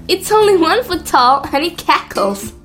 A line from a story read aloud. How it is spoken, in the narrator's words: laughed Sol